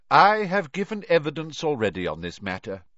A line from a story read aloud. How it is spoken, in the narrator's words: he said calmly